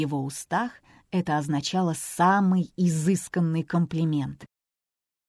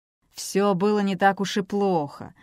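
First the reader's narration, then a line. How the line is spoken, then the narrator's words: Grumbling. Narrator (Russian): проворчал ей вслед Бейкер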